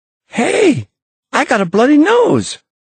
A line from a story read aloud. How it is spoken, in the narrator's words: gasped Tom, happily